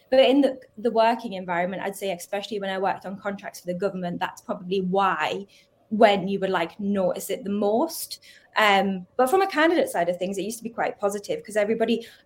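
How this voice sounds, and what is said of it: Geordie accent. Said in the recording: “just because of the accent, they like related it to that because of Geordie ... I'm quite proud of my accent”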